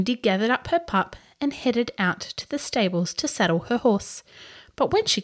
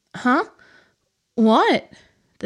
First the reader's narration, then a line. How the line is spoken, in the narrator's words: the stable boy muttered sleepily